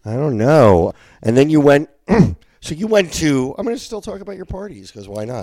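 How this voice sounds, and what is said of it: Congested, stuffy voice. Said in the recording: “You sound like my Nana ... I'm a little congested. I've been sick.”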